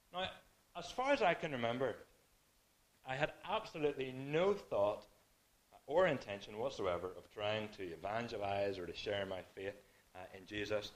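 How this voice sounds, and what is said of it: Irish accent. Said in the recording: “Is that an Irish accent? You're clearly not from Vancouver. You're right, I said.”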